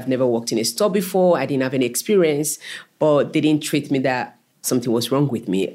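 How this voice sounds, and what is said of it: Speaks English with a foreign accent. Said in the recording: “people hear my voice, my accent”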